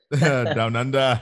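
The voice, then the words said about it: Poor imitation Australian accent. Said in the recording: “that was a very poor Australian accent”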